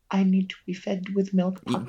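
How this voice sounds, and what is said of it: Baby voice. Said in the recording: “doing a baby voice for 2 minutes”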